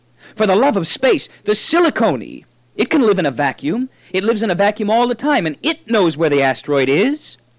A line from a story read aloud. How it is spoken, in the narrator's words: He yelled